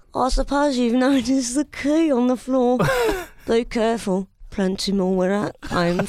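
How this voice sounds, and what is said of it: Put-on regional accent character voice. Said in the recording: “That's the accent I heard it in. I know it's a different part of the country, but that's the accent. ... Can I do the voice? ... that voice”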